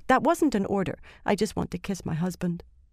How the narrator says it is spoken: she told him, adding hastily

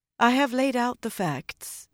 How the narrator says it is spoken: Egwene said calmly

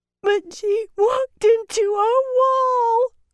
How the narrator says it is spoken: Corrida wailed

